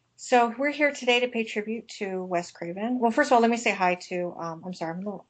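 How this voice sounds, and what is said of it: Congested voice from a cold. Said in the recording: “I have a cold here. I'm at the tail end of a cold.”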